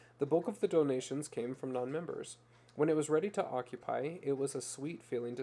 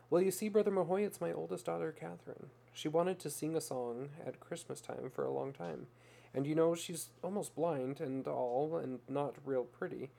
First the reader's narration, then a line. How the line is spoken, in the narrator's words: said in a whispered voice